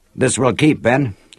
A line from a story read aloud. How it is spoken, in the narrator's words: said